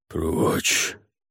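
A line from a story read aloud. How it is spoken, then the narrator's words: Growl. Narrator (Russian): прорычал он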